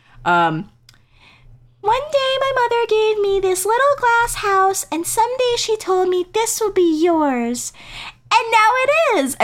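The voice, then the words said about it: Imitates another person's voice. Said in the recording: “I'll do my best Gypsy voice,”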